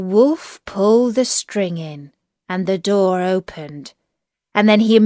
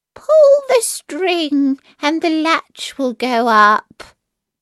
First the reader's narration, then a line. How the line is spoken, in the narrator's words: The good grandmother, who was in bed because she was somewhat ill, cried out